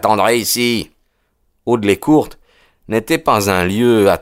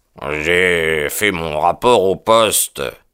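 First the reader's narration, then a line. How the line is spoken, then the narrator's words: Grumbled. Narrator (French): grommela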